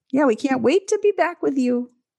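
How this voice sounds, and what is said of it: High-pitched phone voice. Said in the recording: “That was a nice high-pitched voice. ... it was my phone voice.”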